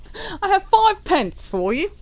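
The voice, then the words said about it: Mock Shakespearean English accent. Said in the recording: “Shakespeare... That was a brilliant accent.”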